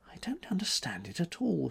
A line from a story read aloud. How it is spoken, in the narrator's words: she murmured